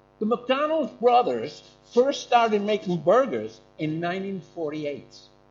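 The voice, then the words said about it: Put-on American accent. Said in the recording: “I can't do a German accent, but I can do an American accent.”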